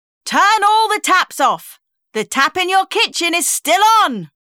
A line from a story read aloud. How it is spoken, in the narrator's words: the voice shouted